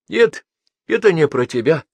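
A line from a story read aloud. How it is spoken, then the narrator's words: Trembling voice, hare. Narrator (Russian): дрожащим голосом ответил сидевший в переднем ряду заяц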